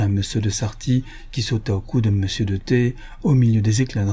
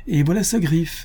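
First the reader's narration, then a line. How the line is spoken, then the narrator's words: Exclaiming. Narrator (French): s'écria le domino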